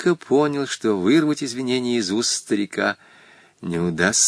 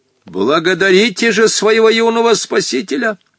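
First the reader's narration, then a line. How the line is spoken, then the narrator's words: Stern shout. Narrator (Russian): Сурово крикнул Хоттабыч девушкам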